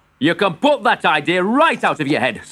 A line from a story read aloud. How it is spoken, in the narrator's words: snapped his father